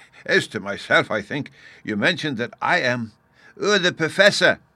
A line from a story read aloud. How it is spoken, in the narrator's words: Bruno shouted in his ear